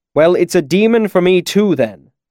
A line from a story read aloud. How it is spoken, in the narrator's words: Chronicler said sharply